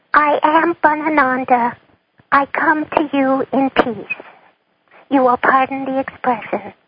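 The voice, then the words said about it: Playful bunny character accent. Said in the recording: “I will speak in Wabbit ... my bunny accent”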